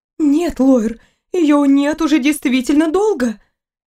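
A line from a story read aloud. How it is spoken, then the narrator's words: Sighing. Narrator (Russian): Эйнер вздохнул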